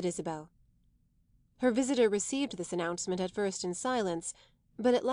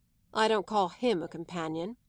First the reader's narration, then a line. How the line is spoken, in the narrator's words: said Caspar grimly